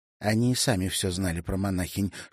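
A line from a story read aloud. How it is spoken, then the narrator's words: Bird's whisper in ear. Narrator (Russian): шепнула ему на ухо Аста в образе щегла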